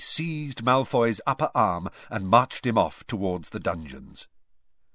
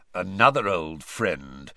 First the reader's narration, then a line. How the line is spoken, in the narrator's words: growled Moody